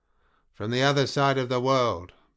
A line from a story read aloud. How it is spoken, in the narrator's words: Payroll boomed out